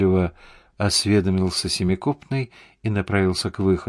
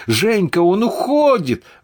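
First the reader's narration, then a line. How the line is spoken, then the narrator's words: Yelling. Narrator (Russian): вопил Славин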